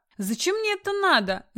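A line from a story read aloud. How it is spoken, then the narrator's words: Seemingly sincere wail. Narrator (Russian): завопил Артур вроде бы даже искренне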